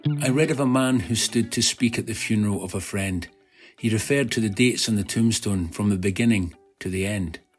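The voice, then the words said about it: Gorgeous Scottish accent. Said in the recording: “the man reading it has a gorgeous Scottish accent ... very Scottish”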